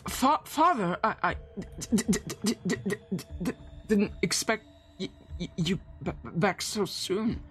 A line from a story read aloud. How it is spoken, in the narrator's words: him gasp, and he says